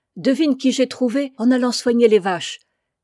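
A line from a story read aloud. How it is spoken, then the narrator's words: Shouting from doorway. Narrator (French): cria Fanta dès le seuil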